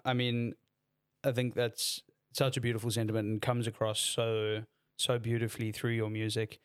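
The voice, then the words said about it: Hoarse voice. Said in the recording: “I'm still hoarse from ... All the screaming. ... my voice is fully still recovering”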